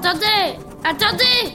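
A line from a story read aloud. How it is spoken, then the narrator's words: Straining shout. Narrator (French): criait-il en faisant un nouvel effort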